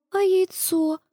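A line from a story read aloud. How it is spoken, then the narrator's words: Sighing little sister. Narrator (Russian): вздохнула сестренка Джино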